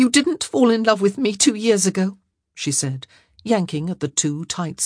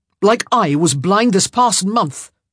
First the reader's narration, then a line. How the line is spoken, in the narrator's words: he continued angrily